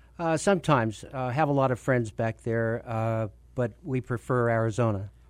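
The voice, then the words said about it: New York accent. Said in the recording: “It sounds like you have a New York accent.”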